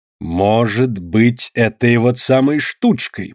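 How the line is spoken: Grumbling. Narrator (Russian): проворчал Виткун

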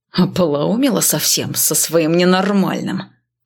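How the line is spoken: Hiss. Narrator (Russian): прошипел

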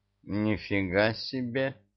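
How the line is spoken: Snort. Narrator (Russian): фыркнул Мурзик

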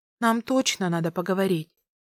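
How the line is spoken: Sighing. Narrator (Russian): вздохнула я

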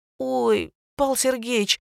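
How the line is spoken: Pleading. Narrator (Russian): взмолилась Женька

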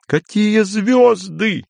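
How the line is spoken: Laughing. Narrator (Russian): Андрей все еще, смеясь

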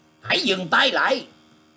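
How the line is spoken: Shouted loudly. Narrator (Vietnamese): Nhật Nguyễn Song Hoàng Tả Bình quát to lên rằng

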